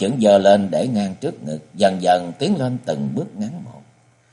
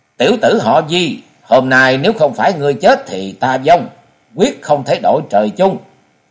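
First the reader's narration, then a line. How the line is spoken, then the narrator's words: Furious woman shouting through teeth. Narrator (Vietnamese): Bà ta càng tức giận, nghiến răng hú dài lên một tiếng rồi quát to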